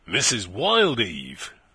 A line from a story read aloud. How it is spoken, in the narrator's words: he exclaimed, starting